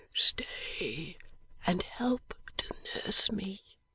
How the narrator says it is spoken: said Eugene quietly

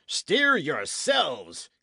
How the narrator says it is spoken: he bellowed with a curse

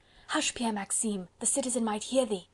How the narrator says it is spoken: whispered the man

